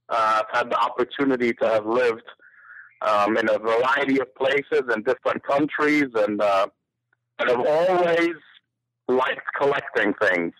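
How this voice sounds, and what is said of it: English accent. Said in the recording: “as you may be able to tell from my accent, I am not a native Georgian. I was born in England”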